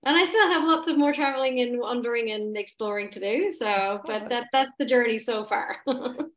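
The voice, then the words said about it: Slight Irish accent. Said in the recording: “you still have a little bit of an accent... I never really completely lost my accent... the thick Irish accent”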